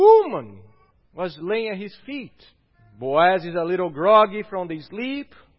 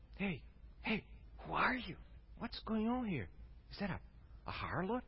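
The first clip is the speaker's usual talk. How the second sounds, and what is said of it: Whispering. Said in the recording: “you can just picture him now whispering”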